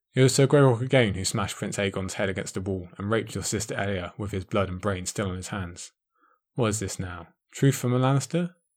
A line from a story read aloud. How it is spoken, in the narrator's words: Oberyn smiled coldly